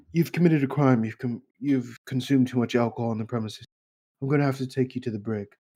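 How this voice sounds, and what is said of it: Jack Sparrow impression. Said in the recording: “a Jack Sparrow impersonator”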